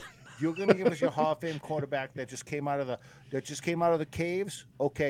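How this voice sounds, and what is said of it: Usual voice. Nothing is said of it.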